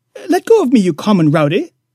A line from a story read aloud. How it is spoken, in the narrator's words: snorted the enraged boob